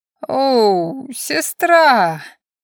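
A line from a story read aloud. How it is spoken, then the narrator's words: Drawled, hazy voice. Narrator (Russian): протянула затуманенным голосом Миша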